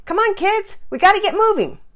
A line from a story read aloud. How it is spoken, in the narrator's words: B called out to the Peters